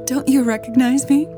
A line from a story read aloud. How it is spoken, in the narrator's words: the woman laughed